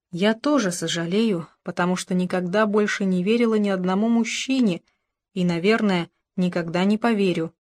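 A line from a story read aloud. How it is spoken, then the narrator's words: Plain. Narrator (Russian): сказала она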